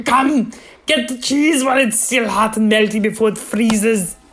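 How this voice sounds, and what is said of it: Arnold Schwarzenegger impression, Swiss accent. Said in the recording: “That's Arnold, just like Arnold doing a Swiss person ... That's him as Mr. Freeze doing an ad for fondue ... your Swiss accent”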